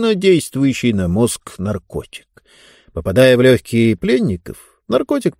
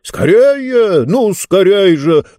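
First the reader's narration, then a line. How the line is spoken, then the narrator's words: Shouted. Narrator (Russian): закричал Мортор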